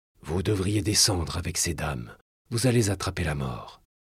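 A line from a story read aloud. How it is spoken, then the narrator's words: Murmured. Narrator (French): murmura Brantôme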